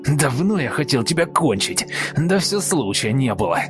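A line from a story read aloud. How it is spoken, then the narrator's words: Wheezing, spluttering white-haired man. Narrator (Russian): Беловолосый хрипел в лицо, брызгая слюной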